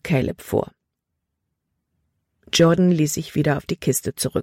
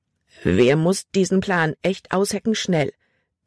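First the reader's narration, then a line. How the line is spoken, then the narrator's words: Plain. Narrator (German): sagte er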